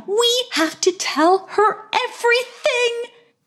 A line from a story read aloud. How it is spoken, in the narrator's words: exclaimed Madam